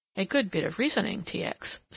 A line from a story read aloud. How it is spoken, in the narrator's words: said the other calmly